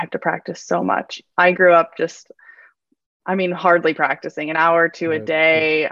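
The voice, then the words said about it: American accent. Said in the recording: “sounds very American.”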